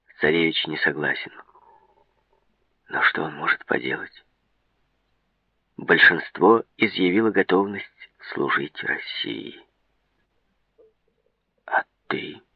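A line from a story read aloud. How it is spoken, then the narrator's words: Plain. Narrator (Russian): спросил Мераб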